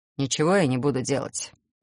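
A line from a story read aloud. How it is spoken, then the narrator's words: Calm announcement. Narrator (Russian): наконец спокойно объявил он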